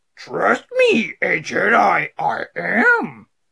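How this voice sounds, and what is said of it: Yoda impression. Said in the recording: “let me do my Yoda impression”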